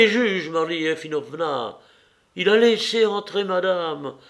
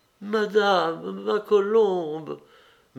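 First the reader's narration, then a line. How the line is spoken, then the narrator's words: Old woman whispering. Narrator (French): murmura la vieille femme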